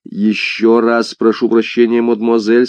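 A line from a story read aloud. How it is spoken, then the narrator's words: Plain. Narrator (Russian): сказал герцог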